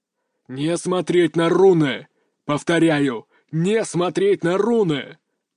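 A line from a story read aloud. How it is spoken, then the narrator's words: Growled over magic link. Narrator (Russian): прорычал Куршунов по магической связи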